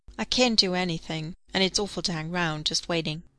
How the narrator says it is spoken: sighed Charlotta

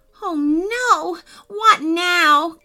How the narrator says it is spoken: cried Gavin

